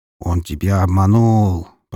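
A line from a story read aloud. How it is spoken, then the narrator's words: Creaky voice, grunting. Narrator (Russian): проскрипел Фридрих, с кряхтением выбираясь из клетки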